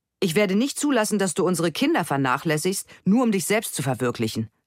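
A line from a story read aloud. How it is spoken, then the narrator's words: Angry. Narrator (German): sagt Gerd wütend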